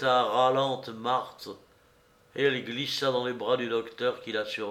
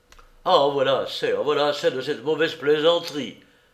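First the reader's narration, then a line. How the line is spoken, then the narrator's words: Irritated exclamation. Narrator (French): s'écria la voix irritée de Jacques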